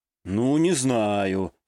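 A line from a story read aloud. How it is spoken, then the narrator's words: Drawled. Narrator (Russian): протянул я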